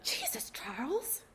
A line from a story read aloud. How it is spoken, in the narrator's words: Jake hisses